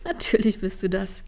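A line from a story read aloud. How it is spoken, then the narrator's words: Laughing. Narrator (German): lachte Trini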